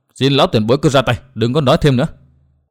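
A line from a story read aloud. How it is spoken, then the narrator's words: Stern voice. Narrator (Vietnamese): Nguyên Bình nghiêm giọng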